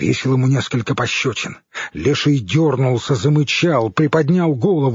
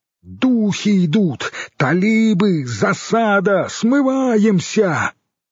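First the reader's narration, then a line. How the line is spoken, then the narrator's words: Shouted into the ear. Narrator (Russian): выкрикнул на ухо хорь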